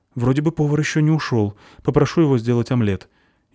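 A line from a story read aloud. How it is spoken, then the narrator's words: Frightened reply. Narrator (Russian): испуганно ответил официант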